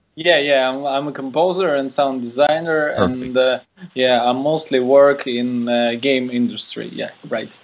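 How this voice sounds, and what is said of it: Russian accent. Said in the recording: “I can hear the accent. I love it.”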